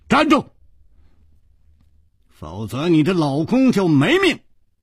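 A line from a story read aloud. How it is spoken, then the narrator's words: Shouting. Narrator (Chinese): 楚留香喊道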